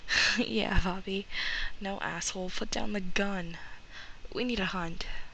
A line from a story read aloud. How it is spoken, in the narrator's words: A lot of breath between laughs, and then Sam saying